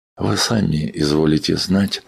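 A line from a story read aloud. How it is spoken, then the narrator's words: Quiet, measured. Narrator (Russian): продолжает доктор тихо и с расстановкой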